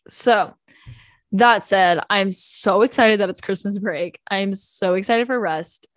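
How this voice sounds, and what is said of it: Tired, exhausted-sounding voice. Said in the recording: “you can probably tell by my voice. I feel like my voice is pretty telling of how I'm feeling. I'm feeling exhausted.”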